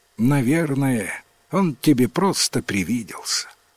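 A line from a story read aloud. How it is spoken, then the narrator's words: Sighing mother. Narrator (Russian): Вздохнула мать и говорит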